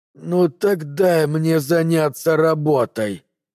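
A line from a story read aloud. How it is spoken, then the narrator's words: Muttered through teeth. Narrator (Russian): процедил Китим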